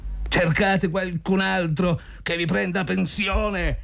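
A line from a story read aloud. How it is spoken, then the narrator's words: Shouted. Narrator (Italian): gridò Zotov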